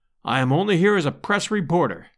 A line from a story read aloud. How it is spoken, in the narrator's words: I answered